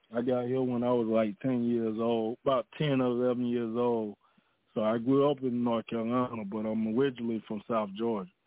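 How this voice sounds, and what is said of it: Southern US accent, South Georgia. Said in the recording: “You hear that Georgia accent... you sound a little more southern than North Carolina... South Georgia accent”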